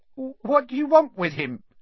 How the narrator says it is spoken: said Ernie in a quavering voice

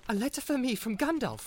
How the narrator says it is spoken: cried Frodo

